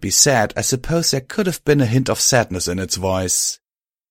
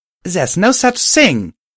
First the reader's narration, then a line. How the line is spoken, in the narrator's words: I shouted at the creature, tears forming in my eyes now as well